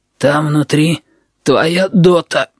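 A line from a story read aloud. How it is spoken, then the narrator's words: Hoarse speaking. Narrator (Russian): говорит Little People хрипун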